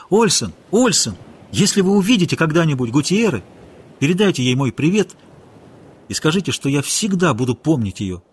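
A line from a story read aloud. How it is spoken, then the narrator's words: Shouting. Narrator (Russian): крикнул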